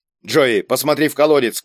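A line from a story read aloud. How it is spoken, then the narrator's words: Shout. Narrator (Russian): крикнул Кийск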